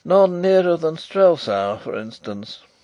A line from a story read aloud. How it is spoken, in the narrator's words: said poor Fritz with a lovelorn sigh